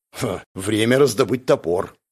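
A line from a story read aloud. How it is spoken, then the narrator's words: Snorting. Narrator (Russian): фыркнул Джувон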